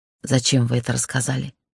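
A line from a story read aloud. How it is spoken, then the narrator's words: Hoarse question. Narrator (Russian): спросила хрипло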